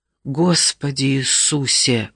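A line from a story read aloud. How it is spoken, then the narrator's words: Breathless exhale. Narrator (Russian): выдохнула Каррера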